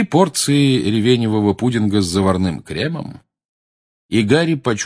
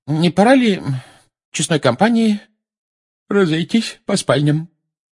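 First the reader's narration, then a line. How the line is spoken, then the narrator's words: Sleepy suggestion. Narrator (Russian): сонным голосом предложила миссис Уизли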